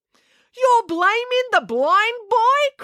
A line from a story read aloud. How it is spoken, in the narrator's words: cried Mr